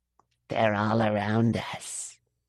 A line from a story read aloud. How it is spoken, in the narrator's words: he whispered